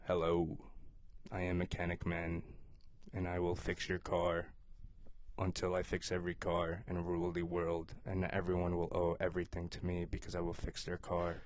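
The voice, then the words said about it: Flat monotone villain character voice. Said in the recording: “putting it in a little bit of a little, like, weird accent tone on it ... You're just being very monotone ... they're going to talk in a very monotone voice”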